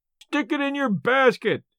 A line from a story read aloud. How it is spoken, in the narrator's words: yelled Merritt, in a delight that showed how hard he was pulling for the gate money